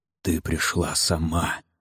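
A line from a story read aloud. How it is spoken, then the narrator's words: Hoarse whisper. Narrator (Russian): сказал он хриплым шепотом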